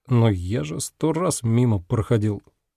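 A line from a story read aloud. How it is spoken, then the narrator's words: Muttered after pause. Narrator (Russian): пробормотал после небольшой паузы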